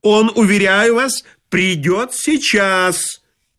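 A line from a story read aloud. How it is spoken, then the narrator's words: Yelling at full voice. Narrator (Russian): заорал я во все горло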